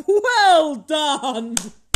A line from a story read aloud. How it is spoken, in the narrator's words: old Fezziwig cried out